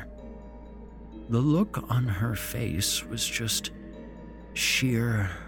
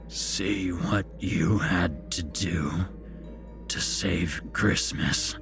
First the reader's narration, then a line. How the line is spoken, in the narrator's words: he croaked